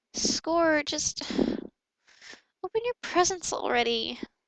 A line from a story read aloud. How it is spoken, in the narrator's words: Albus mumbled